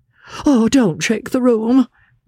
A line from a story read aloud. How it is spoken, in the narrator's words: cried Mr